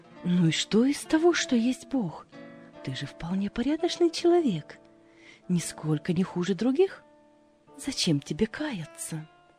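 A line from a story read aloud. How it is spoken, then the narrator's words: Gentle persuasive. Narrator (Russian): Другой же голос нежно, но убедительно говорит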